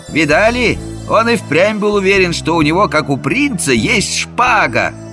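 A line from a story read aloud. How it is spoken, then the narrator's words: Mocking. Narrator (Russian): Эта насмешка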